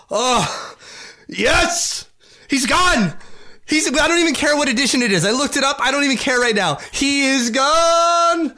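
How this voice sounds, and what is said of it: Excited yelling. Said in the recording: “I'm yelling”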